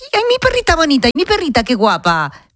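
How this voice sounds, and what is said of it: Cooing baby voice. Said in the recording (Spanish): “le hablas con voz de bebé”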